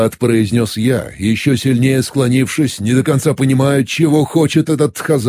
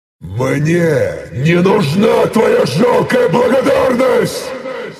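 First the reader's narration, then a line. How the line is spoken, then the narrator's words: Angry growl. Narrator (Russian): Неожиданно зло прорычал он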